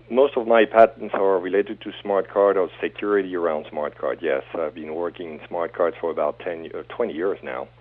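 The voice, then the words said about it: French accent. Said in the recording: “You have a fabulous French accent.”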